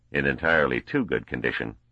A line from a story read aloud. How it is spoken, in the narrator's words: responded Verisov dryly